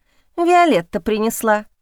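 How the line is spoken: Snorting remark. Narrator (Russian): хмыкнула Поля

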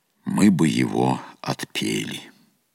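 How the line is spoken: Calm, elder monk. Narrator (Russian): отец-наместник спокойно ответил

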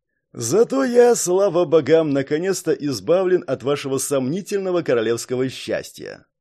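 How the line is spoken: Smirking snort. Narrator (Russian): хмыкнул Каллахан

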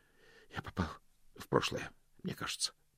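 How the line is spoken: Muttered. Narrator (Russian): пробормотал Мокриц

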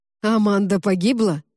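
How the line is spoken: Sharp question. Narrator (Russian): резко спросил Константин

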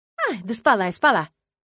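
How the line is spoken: Dismissive. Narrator (Russian): отмахнулась повариха

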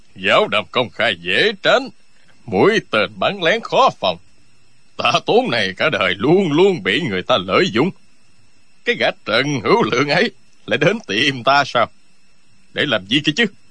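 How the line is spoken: Sneering scoff. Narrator (Vietnamese): Tạ Tốn cười khẩy nói

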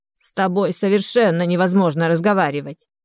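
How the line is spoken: Old woman snorting. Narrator (Russian): фыркнула старушка

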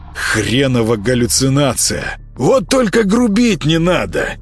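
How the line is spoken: Hoarse wheeze, cat. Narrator (Russian): прохрипел кот

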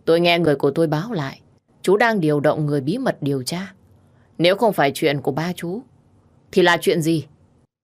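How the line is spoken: Heavy sighing, troubled. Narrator (Vietnamese): Khiếu Trạch đột nhiên thở dài, tâm sự giống như đang chất chồng lên nhau vậy

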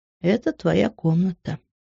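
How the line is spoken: Quiet. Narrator (Russian): тихо сказал папа

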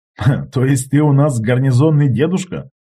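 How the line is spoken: Laughing. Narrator (Russian): рассмеялся я

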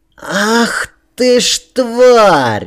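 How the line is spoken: Shrill scream. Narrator (Russian): визгливо закричал младший барон

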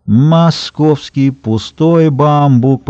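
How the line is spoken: Nasal drawl. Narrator (Russian): протянул он гнусаве

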